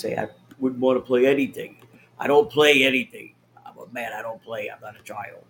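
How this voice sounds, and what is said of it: Imitates another person's voice. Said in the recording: “that does sound like him ... I do a good impersonation of him”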